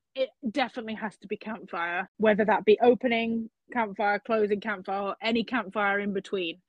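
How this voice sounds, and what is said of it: British accent, crisp T's. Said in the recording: “my British accent... I have to pronounce the T's”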